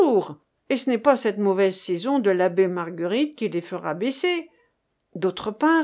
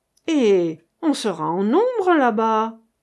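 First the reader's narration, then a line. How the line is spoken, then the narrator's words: Exclaiming. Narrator (French): s'écria le lieutenant Coquebert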